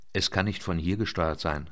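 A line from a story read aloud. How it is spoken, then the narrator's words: Plain. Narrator (German): sagte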